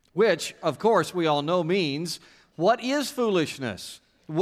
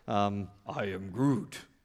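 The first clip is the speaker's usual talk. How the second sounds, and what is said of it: Groot impression. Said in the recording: “your favorite Groot imitation.”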